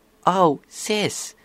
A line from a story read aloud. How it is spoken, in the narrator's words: Applebloom smiled nervously